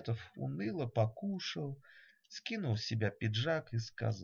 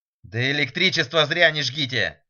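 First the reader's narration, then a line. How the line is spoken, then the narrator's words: Shouted. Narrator (Russian): крикнул Фиолетов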